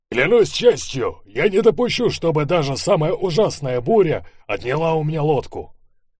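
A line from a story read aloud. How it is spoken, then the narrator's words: Shout, faint and distant. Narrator (Russian): заорал волк Ларсон, и хотя мы стояли около него, его голос слышался слабо и невнятно, точно отдаленный от нас громадным пространством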